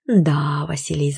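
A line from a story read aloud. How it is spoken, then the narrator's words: Thoughtful. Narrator (Russian): задумчиво произнесла я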